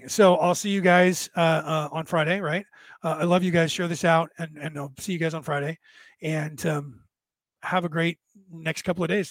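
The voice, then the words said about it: Strained, fading hoarse voice. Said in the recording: “you can tell my voice is fading ... after almost losing my voice ... damaged vocal cords. And the more I talk, the worse it gets”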